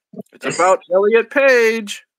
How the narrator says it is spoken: Willie yelled back

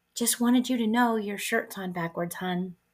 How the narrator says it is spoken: a little old lady you don't know quietly taps you on the shoulder, smiles kindly, and says

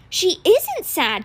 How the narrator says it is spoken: exclaimed

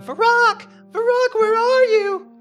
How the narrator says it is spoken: a young woman searching desperately

